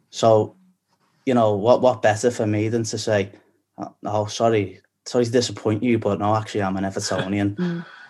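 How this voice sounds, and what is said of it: Scouse accent. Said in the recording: “people hear your Scouse accent in London especially and across the globe”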